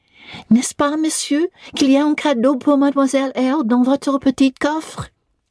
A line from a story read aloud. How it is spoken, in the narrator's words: cried out